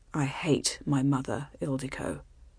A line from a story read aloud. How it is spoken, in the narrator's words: he said in that same flat voice